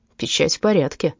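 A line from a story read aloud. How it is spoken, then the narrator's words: Grumbled. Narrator (Russian): буркнул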